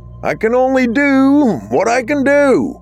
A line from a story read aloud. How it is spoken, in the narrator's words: he hollered through the mass's roar